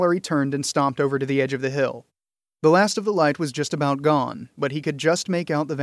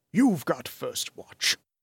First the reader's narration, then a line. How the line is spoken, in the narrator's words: he growled to Gilroy